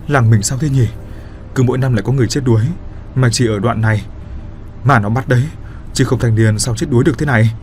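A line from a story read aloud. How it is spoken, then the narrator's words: Fearful. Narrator (Vietnamese): Người khác thì tỏ ra sợ hãi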